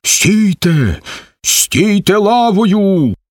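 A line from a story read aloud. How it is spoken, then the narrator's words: Shouting. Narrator (Ukrainian): крикне Сомко на своїх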